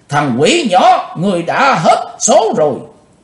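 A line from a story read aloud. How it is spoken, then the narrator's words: Barked shout. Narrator (Vietnamese): Nam Quan Sông Hùng đồng quát lên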